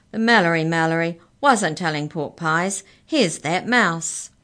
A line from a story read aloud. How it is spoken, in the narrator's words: boomed